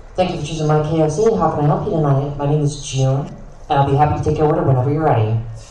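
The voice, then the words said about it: Customer-service retail worker voice. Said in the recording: “in your retail voice ... In your best retail voice”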